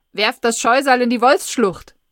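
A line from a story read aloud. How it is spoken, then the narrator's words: Loudspeaker calling. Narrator (German): Der Lautsprecher ruft's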